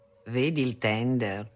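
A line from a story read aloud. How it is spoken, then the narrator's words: Plain. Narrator (Italian): disse Lucio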